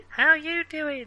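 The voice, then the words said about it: Tiny voice imitating a sitcom character. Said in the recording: “a tiny ... that sounded a bit Joey from Friends”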